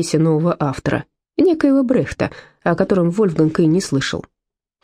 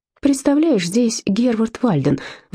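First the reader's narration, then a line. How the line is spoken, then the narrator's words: Excited announcement. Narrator (Russian): взволнованно известила она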